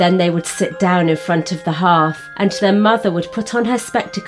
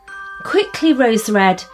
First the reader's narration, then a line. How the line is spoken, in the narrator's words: said her mother